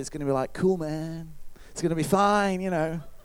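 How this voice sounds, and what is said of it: Put-on laid-back drawling accent. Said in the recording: “That's my best whatever accent it was.”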